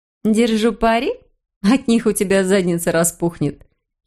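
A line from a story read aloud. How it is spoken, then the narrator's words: Giggling. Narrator (Russian): хихикала Джейн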